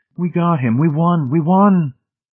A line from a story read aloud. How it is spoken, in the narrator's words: Laughing hysterically, Miss Rice cried